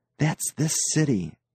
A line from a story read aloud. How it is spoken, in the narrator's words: Nasha said softly